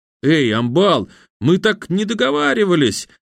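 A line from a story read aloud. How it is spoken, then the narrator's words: Displeased squeak. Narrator (Russian): недовольно пропищал потерпевший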